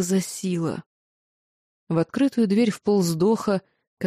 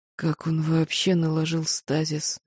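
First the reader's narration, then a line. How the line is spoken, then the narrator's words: Hoarse, slurred question. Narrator (Russian): хрипло, едва ворочая языком, спросил Наавир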